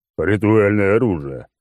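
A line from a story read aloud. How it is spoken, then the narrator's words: Booming drone. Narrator (Russian): прогудел клоун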